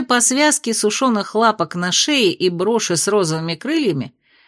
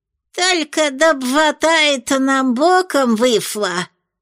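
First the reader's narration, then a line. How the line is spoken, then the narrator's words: Lisping little old woman. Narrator (Russian): прошепелявила маленькая старушка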